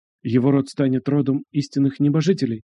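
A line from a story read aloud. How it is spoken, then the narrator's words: Frightened quiet whisper. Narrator (Russian): тихо прошептал один из младших советников, резко побледнев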